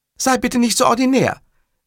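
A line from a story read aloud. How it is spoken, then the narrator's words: Calling from another room. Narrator (German): rief prompt aus der Küche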